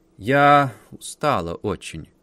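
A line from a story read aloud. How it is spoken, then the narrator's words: Tired drawl. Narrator (Russian): протянула барышня Розгин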